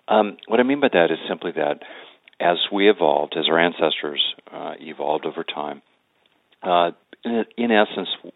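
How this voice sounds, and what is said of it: Froggy, hoarse voice. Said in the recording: “my voice is very froggy because I'm working with a sore throat here”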